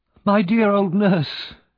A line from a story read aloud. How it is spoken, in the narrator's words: cried Oliver